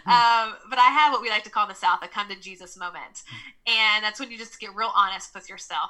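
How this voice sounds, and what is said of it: Southern US accent. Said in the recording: “I'm from the South, so I'm from Nashville, Tennessee. So you'll hear me say y'all, and you'll hear my Southern accent.”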